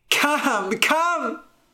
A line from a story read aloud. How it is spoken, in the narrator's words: I cried